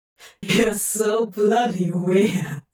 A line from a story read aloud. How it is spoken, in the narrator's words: Crowley chuckled affectionately